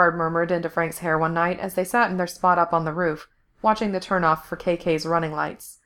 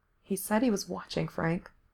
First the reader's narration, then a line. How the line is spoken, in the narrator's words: Gerard said softly